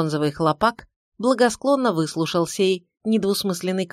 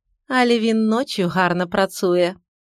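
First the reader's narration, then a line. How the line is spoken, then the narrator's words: Peaceable. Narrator (Russian): миролюбиво сказала Генька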